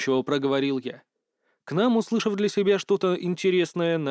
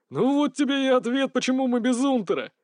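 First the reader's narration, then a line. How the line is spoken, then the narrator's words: Sudden cry. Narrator (Russian): вдруг вскрикнул Васильчиков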